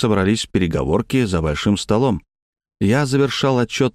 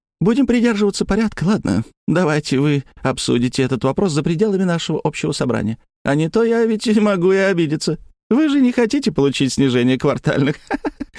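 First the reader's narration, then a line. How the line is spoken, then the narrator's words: Laughing but serious. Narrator (Russian): Смеяться-то она смеялась, но, по-моему, совершенно не шутила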